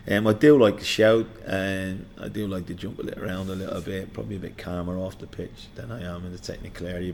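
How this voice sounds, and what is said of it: Slightly hoarse voice. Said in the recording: “I'm a bit hoarse.”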